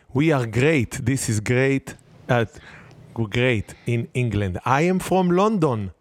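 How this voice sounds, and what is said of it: Attempted English accent, sounds French. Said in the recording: “switched to English accent ... You sound like a French man.”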